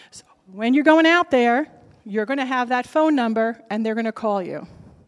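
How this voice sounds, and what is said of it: New Jersey accent. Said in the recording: “my New Jersey accent”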